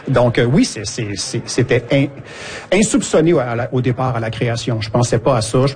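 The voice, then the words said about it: Québécois French accent. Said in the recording (French): “C'est l'accent québécois.”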